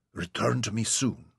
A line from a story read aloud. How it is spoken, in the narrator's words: she murmured